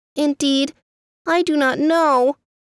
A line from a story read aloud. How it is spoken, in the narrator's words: answered the bird sadly